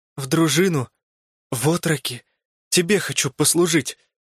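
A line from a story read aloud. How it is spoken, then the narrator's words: Timid, hoarse. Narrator (Russian): Вконец оробев, сипло выдавил мой отчаянный побратим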